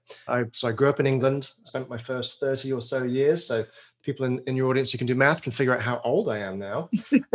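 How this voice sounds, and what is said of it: British English accent. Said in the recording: “my outrageous British accent”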